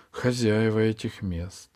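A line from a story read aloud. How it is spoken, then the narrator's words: Sighing. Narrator (Russian): Альта вздохнула и добавила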